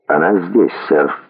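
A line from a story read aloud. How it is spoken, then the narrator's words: Calm answer. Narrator (Russian): ответил Брикс спокойно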